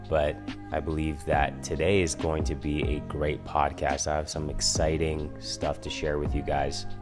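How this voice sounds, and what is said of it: Sick-sounding, low-energy voice. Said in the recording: “excuse my voice, and if I'm a little bit of a lower vibe, it's because I got a cold and I'm a little bit sick”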